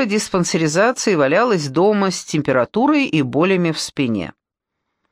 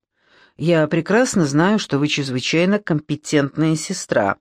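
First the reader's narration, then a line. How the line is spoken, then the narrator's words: Gruff mutter. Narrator (Russian): буркнул Миллер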